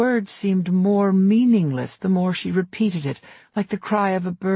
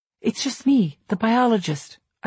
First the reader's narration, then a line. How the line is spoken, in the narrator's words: I said in a calm voice, even though she had rattled me